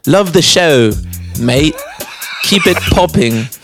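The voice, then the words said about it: Attempted English accent, sounds Australian. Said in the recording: “try saying that in an English accent ... It's Australian, bro.”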